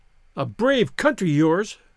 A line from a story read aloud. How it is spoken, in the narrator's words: she cried